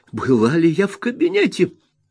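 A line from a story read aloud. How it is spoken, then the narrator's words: Excited exclamation. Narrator (Russian): возбужденно воскликнула миссис Марклхэм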